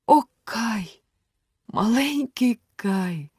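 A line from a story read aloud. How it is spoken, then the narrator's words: Sighing. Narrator (Ukrainian): зітхнула Герда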